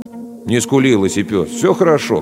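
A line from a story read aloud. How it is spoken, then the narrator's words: Plain. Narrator (Russian): говорит второй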